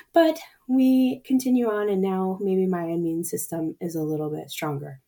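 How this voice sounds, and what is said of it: Hoarse, laryngitic voice. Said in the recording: “my voice is a little messed up from one of the nasty colds ... I get laryngitis ... my voice is hilarious”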